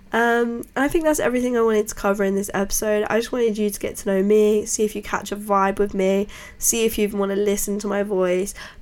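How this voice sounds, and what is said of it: Snotty, congested sick voice. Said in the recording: “I'm a little bit ill. My voice isn't always this sort of like snotty.”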